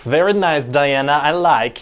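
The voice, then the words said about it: Borat-style silly accent. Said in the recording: “make everyone talk a little silly ... it's gonna sound a little like Borat.”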